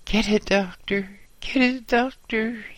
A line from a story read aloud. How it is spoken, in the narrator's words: groaned